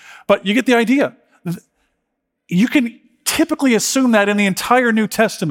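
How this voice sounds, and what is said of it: Usual voice. Nothing is said of it.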